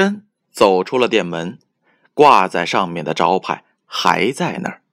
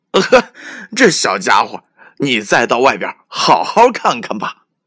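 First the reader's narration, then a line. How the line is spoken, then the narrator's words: Laughing heartily. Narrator (Chinese): 店员听了，哈哈大笑，说道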